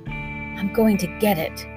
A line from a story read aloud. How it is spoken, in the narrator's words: thought grimly